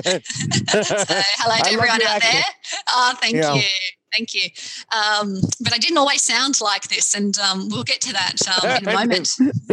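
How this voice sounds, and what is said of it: Australian accent. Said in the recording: “I'm obviously Australian. You hear from my accent.”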